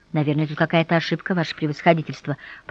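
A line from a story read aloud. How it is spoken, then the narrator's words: Muttering. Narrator (Russian): пробормотала она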